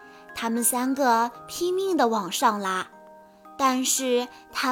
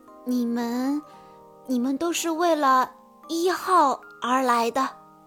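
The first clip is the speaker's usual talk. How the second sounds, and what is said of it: Quiet, hushed speech. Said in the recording (Chinese): “二号很小声地说”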